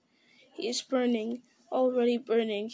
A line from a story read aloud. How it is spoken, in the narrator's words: he said sadly